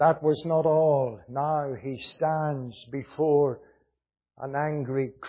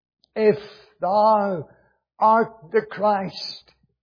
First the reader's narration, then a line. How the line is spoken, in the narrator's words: cried the thief on the cross